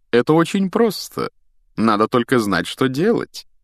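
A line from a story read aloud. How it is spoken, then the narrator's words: Lecturing professorial tone. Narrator (Russian): профессорским тоном объяснял Локонс Хагриду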